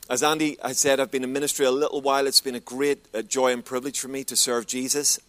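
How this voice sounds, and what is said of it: Northern Irish Belfast accent. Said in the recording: “I'm from Belfast originally in Northern Ireland... It's English, but not as we know it... thank you for your patience with my accent”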